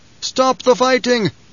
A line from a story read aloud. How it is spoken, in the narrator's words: Gurney bellowed